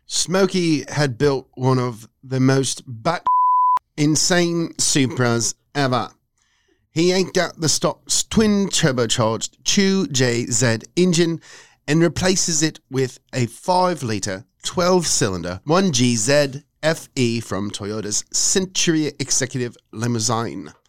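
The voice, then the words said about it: Put-on British accent. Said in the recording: “how would you read this next section with a British accent?”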